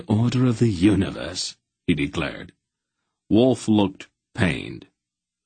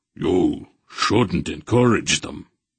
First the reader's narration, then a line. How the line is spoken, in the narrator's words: Merrick growled